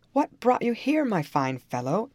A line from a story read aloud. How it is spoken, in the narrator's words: exclaimed the militia captain